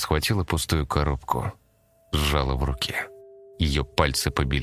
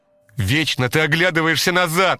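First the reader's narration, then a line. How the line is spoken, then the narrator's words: Shout. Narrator (Russian): крикнула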